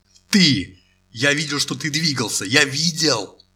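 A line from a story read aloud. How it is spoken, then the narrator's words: Loud shout. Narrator (Russian): громко крикнул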